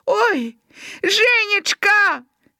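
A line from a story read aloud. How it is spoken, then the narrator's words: Shout with coughing. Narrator (Belarusian): Гаркавы крыкнуў, закашляўшыся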